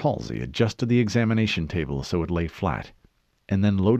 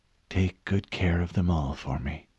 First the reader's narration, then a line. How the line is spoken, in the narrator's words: added in a whisper so low that only she heard